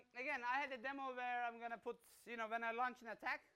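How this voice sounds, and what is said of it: Mixed Turkish-German accented English. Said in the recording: “my accent is, you know, I always, Turkish parents, made in Germany, was living in Australia, now in Dubai, so this is what's coming out”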